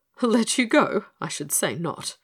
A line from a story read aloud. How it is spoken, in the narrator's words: he exclaimed with a little chuckle